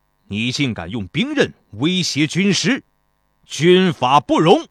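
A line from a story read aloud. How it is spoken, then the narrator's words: Furious stern voice. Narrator (Chinese): 孙膑勃然大怒，对曹将军厉声道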